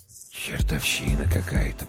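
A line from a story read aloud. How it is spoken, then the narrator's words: Whisper. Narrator (Russian): прошептал Прохор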